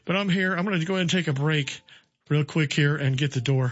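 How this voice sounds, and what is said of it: Out of breath speaking. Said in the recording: “I'm a little out of breath from running down here in a hurry”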